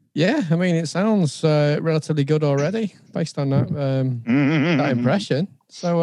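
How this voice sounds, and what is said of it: Usual voice. Nothing is said of it.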